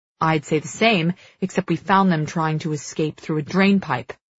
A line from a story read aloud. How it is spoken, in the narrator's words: Cal snaps